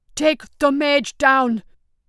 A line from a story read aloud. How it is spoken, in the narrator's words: shouted, his voice booming through the courtyard